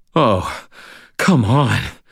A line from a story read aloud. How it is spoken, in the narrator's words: said, panting